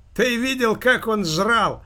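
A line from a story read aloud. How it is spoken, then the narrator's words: Young man exclaiming after laughter. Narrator (Russian): воскликнул молодой человек, перестав громко смеяться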